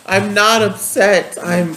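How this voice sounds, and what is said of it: Upset, tearful voice. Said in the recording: “Why do you sound so upset? ... you don't sound like it. ... You're crying. You don't sound happy.”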